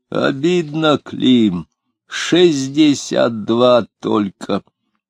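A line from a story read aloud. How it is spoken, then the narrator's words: Hoarse, chewed-up words. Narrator (Russian): сипел воровка, чавкая слова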